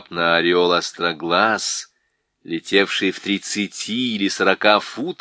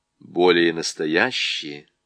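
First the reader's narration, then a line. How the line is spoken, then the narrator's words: Soft. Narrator (Russian): сказал лорд Дигори мягко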